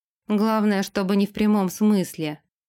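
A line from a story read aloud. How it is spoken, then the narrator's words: Grumbled. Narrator (Russian): буркнул Дерек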